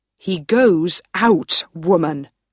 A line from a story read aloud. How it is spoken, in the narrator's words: Lord Ruthven said